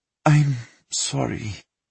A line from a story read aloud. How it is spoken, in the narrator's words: Vika sighed